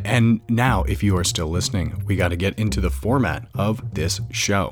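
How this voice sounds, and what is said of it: Low growly close-mic radio voice. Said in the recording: “your sexy, growly radio voice ... a little bit different from your normal voice ... this is the podcast voice. ... It must be up close to the mic so you can hear my lips smack against one another.”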